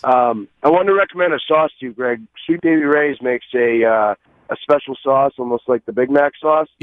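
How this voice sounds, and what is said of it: Scratchy, strained voice. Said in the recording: “my voice is a little scratchy. Still trying to get it back from the parade last week.”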